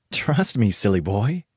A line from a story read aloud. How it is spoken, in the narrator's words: laughed